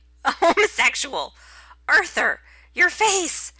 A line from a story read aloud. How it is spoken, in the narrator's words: that's as far as he gets before he dissolves into giggles